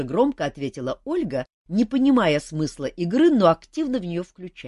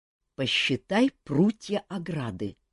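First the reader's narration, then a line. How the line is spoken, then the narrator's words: Whisper. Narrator (Russian): шепнул Кантор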